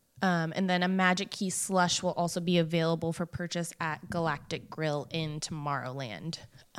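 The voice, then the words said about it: Strained, hoarse voice. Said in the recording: “I'm losing my voice today.”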